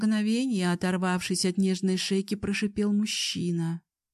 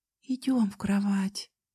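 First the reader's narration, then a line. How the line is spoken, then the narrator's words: Girl's trembling whisper. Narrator (Russian): дрожащим голосом прошептала девушка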